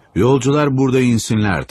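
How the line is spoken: Shouting. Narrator (Turkish): diye bağırıyordu

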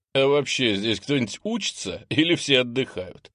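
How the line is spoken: Chuckling. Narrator (Russian): Хохотнул Андрей

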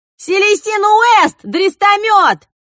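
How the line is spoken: Drunken shout. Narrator (Russian): выкрикнул один из тех, кто хлебнул за лохматого

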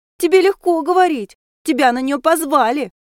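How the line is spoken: Sobbing. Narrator (Russian): Кажется, Теона всхлипнула

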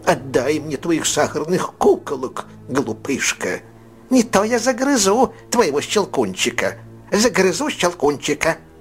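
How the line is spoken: Nasty squeak through teeth. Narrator (Russian): еще противнее пропищал он сквозь зубы

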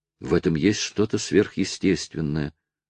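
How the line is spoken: Whispered. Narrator (Russian): шепнула Луиза

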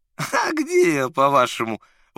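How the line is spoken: Uncertain laughing reply. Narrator (Russian): в ответ рассмеялся, но это был неуверенный смех

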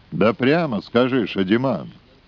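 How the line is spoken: Sharp. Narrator (Russian): Эмериджиби резко проговорил

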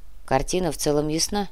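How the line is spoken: Grumbling mutter. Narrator (Russian): буркнул Кортес

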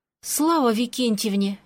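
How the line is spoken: Relieved sigh. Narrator (Russian): я вздохнула с облегчением

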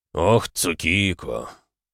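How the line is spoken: Sighing demon. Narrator (Russian): Вздохнул демон

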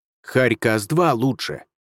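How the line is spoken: Growled. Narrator (Russian): рыкнул Хувей

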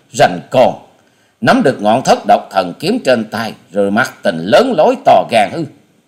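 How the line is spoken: Sneering scoff. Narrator (Vietnamese): Hà Xà tiên tử nhếch môi cười khẩy

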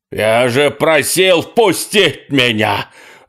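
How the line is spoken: Yelling in a distorted voice. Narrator (Russian): Орал не своим голосом

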